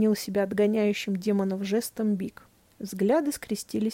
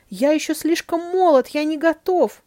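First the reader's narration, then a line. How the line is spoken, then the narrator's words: Wailing. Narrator (Russian): взвыл попрыгун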